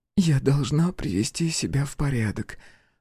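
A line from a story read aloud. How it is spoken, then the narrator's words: Husky. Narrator (Russian): с хрипотцой в голосе сказала девушка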